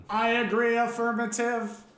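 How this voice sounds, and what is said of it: Robotic voice. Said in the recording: “now you're the robot? ... robot voice? ... They put a different audio filter on my voice.”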